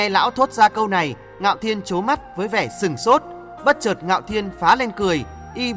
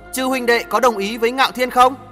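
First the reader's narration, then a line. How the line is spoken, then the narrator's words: Raised voice. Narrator (Vietnamese): cao giọng nói tiếp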